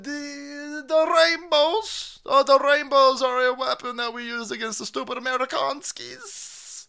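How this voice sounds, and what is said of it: Put-on Russian accent sounding Italian. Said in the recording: “every accent's going to sound the same ... We're going with the Italian thing or whatever the hell I've been doing lately”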